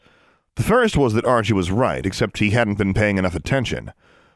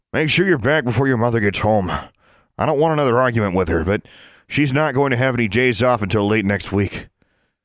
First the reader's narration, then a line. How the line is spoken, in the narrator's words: Archie said gruffly